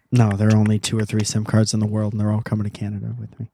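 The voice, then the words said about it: Sarcastic delivery. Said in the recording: “Can you tell that I'm being sarcastic?”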